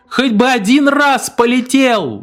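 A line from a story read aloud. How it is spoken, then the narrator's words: Wife shouting. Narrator (Russian): закричала жена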